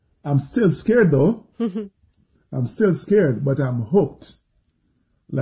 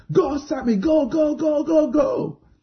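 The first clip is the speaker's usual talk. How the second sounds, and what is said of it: Shouting at top of lungs. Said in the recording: “I'm shouting at the top of my lungs”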